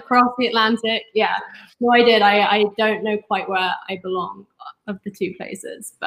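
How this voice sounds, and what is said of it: London English accent. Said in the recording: “the accent is deceiving, but I'm not even sure if it's my real accent ... growing up in North London”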